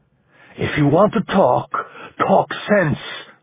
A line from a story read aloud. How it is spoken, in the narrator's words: Ramon rasped